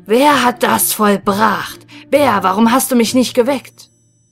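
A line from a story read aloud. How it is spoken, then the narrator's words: Terrible roaring shout. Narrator (German): der Löwe fing er an, fürchterlich zu brüllen und rief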